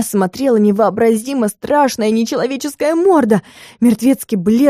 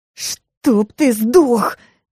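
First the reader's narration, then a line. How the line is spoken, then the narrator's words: Strained. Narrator (Russian): выдавила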